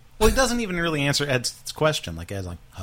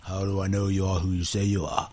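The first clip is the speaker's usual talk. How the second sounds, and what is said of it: Imitates another person's voice. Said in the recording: “that's my Ed impression.”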